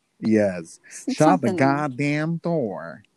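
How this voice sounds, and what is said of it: Put-on Southern US accent. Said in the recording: “there's more than one type of southern accent here ... I used to have a southern accent ... I love the way they say fingers”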